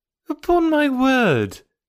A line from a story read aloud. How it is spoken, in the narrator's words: exclaimed Emma